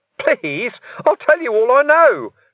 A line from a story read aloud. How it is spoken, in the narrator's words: Ferret squeaked